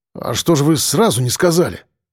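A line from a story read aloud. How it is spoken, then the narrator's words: Mutter. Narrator (Russian): пробормотал дежурный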